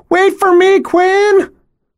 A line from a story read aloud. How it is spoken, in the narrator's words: running as fast as her little legs will carry her and screeching